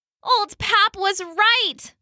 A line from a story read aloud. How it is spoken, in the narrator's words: Lulu groaned to her friends